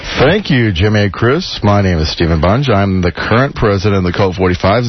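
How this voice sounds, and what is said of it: Deep bassy radio announcer voice. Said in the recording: “he's using his radio voice. ... He's copying my three ball voice. ... he's got bass in his voice.”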